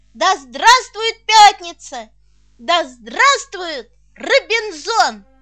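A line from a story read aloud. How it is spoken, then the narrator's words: Joyful shouting. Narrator (Russian): просветлевший Толя кричал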